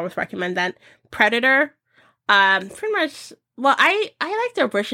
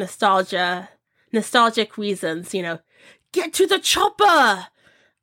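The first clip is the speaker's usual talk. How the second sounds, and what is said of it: Badly imitates another person's accent. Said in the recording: “my terrible accent”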